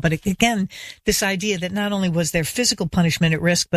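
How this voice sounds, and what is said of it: Choked-up, emotional voice. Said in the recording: “I'm getting choked up thinking again about it now”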